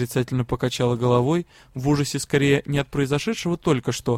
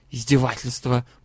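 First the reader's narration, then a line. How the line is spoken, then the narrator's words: Hissing. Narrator (Russian): прошипела куратор Арден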